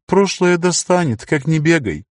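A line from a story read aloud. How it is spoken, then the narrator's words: Sighing. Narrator (Russian): Лар вздохнул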